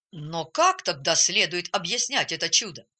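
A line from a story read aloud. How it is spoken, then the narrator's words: Angry doctor asking. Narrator (Russian): сердито спросил доктор Аренд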